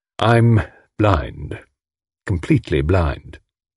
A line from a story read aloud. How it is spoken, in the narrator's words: said Tommy in a melancholy voice